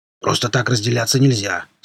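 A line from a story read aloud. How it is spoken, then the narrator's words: Plain. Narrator (Russian): сказал Рвач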